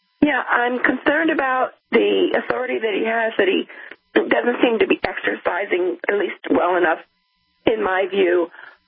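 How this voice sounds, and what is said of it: Raspy, hoarse voice. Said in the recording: “Sorry if I'm raspy. I'm home on doctor's orders.”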